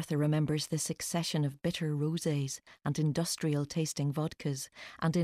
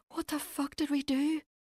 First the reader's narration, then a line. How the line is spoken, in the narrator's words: Kate gasped, mascara pooling beneath each eye